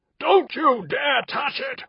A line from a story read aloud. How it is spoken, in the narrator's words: Rashomandis roared